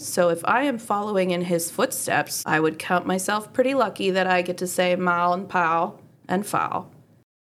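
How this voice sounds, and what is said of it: Pittsburgh Yinzer accent. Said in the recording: “he also has the same dialect as me ... my dialect ... my Yinzer background”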